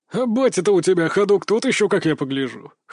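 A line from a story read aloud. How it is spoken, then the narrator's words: Chuckling. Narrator (Russian): хохотнул Кастет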